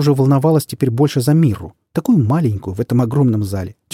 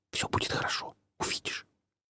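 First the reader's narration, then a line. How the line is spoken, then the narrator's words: Whispered. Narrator (Russian): Она шепнула ей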